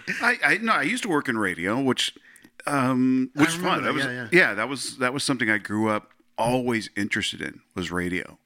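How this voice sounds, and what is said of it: Golden radio voice. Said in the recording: “as you can hear from his voice. I've always thought that he had like this golden, like, just ... That radio voice. ... He's got the best voice.”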